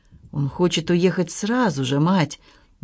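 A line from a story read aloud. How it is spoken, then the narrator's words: Uncertain. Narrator (Russian): неуверенно произнес Роберт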